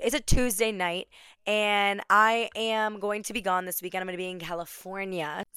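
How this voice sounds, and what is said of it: Hoarse, strained voice. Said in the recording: “sorry for my voice. ... I won't have a voice for a podcast episode”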